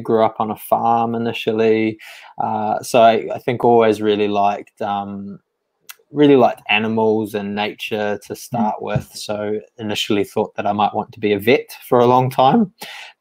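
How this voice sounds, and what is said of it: New Zealand accent. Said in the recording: “I'm originally from New Zealand. You can probably pick up from the accent”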